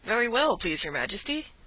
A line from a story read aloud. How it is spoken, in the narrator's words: replied Avenant cheerfully